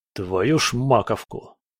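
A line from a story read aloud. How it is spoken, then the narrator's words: Irritated hiss. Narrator (Russian): прошипел сержант Клим Перепелкин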